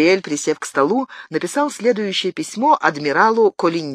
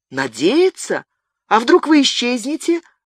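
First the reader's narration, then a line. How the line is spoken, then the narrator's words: Exclaiming. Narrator (Russian): воскликнула Алоиза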